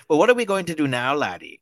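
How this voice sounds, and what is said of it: Deliberately bad Irish accent. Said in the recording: “in the worst Irish accent you can possibly imagine”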